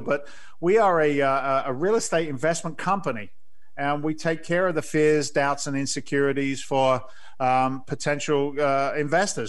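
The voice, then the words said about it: Slight English accent. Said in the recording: “my dulcet tones and my slight English accent”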